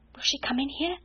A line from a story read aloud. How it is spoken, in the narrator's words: Ermengarde whispered back, panic-stricken